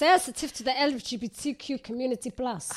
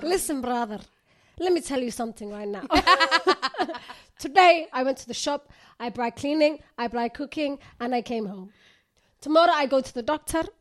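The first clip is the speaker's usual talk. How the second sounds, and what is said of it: Imitates another person's accented speech. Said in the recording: “that's how she talks ... that's how this girl talks. I just love her accent.”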